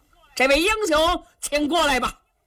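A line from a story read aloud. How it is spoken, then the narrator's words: Loud shout. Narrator (Chinese): 杨林冲着上司郎高声喊嚷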